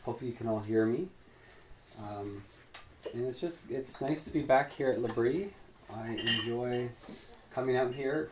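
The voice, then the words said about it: Slightly raspy voice. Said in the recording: “I have a little bit of a cold, so my voice is a little raspy.”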